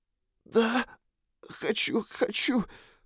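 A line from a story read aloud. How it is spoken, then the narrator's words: Hoarse, breathless, sobbing. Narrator (Russian): прохрипела она, задыхаясь и всхлипывая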